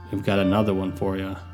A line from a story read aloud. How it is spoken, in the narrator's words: The voice stops abruptly before concluding, sadly, almost sympathetically